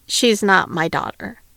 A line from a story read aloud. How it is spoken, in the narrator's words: Harry replied